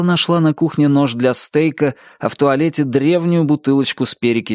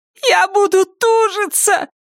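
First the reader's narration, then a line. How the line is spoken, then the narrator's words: Groaning. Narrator (Russian): простонала Тиффани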